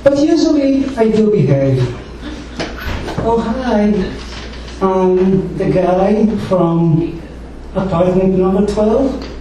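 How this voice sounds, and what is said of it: Speaks with a noticeable accent. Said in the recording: “I have an accent”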